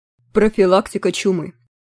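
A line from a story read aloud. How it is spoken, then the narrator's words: Bored dictating voice. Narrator (Russian): скучным голосом диктовал Змейк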